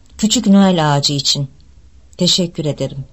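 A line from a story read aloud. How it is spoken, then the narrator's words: Slowly continued. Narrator (Turkish): diye devam etti yavaşça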